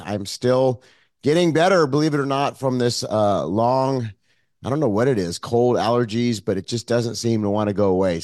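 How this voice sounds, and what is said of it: Hoarse, froggy voice. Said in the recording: “You probably hear my voice is a little hoarse today ... my voice sounds a little bit different ... my froggy voice”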